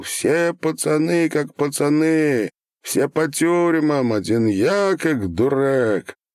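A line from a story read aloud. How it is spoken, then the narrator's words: Anguished yell, young man. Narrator (Russian): парня лет 20 с тоской завопил на весь зал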